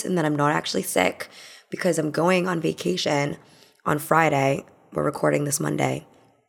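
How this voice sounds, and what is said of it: Hoarse, raspy, partly lost voice. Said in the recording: “can tell from my voice. It's a little bit more rustic, a little bit sexier than usual... I've lost my voice... just my throat being fucked over”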